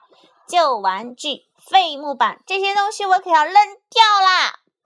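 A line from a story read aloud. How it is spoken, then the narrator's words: Loud shout. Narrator (Chinese): 妈妈大声喊道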